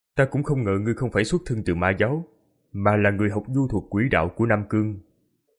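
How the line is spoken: Cold. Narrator (Vietnamese): Quỷ Lệ lạnh lùng nói

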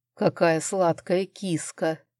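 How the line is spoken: Purring. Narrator (Russian): промурлыкал Арман

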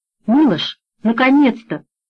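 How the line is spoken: Joyful exclamation. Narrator (Russian): радостно воскликнула Бажена

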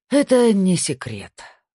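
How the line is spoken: Sigh. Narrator (Russian): вздохнул Снейдер

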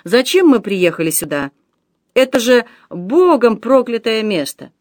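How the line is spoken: Disgusted exclamation. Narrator (Russian): С отвращением посмотрев на трупы, он воскликнул

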